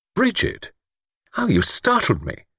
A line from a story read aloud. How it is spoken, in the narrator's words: she said sharply